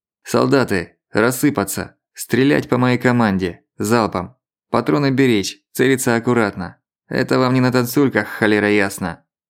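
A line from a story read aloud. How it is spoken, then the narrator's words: Barking from behind. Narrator (Russian): рявкнул позади Бельский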